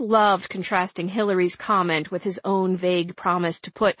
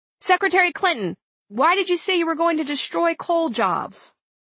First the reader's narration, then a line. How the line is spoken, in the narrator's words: over the hum of fight song, a voice yelled out